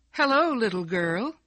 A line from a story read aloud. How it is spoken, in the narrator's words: a young man called out cheerfully